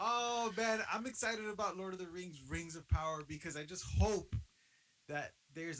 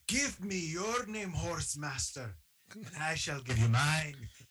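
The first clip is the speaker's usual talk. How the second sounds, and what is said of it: Poor put-on dwarf character accent. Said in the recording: “Gimli quotes ... my accent's terrible”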